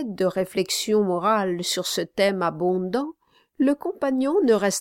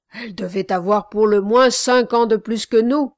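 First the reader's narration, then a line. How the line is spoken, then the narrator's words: Exclaimed. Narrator (French): s'écria l'autre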